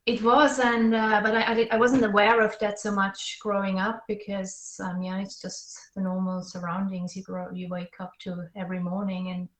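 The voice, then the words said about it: Swiss accent. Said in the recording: “we can tell already a little bit from your accent there, that you're from Switzerland”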